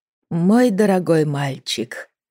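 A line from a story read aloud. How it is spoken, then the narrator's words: Soft, gentle. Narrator (Russian): мягко сказала она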